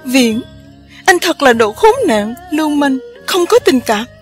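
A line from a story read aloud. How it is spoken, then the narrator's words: Screaming. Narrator (Vietnamese): Khâm thét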